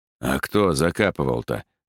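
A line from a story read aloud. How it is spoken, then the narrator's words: Skeptical snort. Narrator (Russian): хмыкнул Иван Федорович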